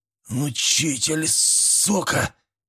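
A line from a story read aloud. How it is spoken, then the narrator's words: Wheezing sick man. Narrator (Russian): просипел болезный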